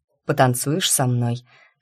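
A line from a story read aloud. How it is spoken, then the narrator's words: Hot intimate whisper. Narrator (Russian): шепнул, обжигая дыханием висок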